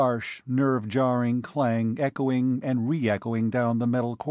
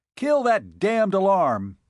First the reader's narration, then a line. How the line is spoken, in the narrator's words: he roared